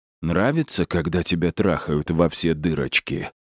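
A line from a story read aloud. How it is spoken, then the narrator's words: Tender, almost caring. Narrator (Russian): спросил Ларри, нежно и почти заботливо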